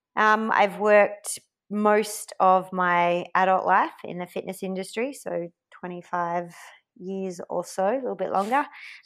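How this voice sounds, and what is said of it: Australian accent. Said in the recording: “Australian born, obviously, by the accent”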